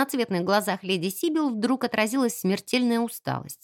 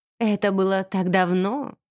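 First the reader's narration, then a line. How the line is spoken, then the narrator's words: Purring. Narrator (Russian): мурлыкнула она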